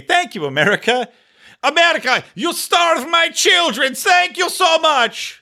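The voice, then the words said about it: Put-on Iranian accent. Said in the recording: “Is that an Iranian accent? I don't know. I don't know what Iranians sound like.”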